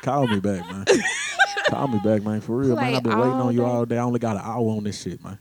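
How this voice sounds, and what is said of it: Put-on chat line phone voice. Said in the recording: “Let me put on my chat line voice. ... This is my live links voice, man.”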